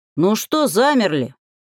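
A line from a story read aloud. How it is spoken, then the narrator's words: Bark. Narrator (Russian): рявкнул Берлак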